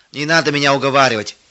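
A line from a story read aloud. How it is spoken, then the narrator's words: Angry. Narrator (Russian): сердито отмахивался он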